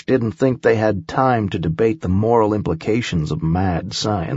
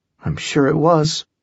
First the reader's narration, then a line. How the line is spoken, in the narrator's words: Holly muttered